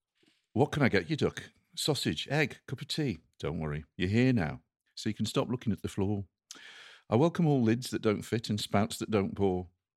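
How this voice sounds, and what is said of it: Slight put-on Midlands English accent. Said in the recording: “my kind of slightly kind of Midlandsy accent ... it is a monologue. It is very much in that Alan Bennett.”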